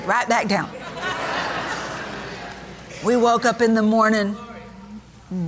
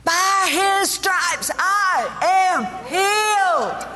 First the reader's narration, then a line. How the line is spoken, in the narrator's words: screamed out